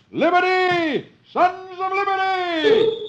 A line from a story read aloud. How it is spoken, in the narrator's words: Paul Revere shouts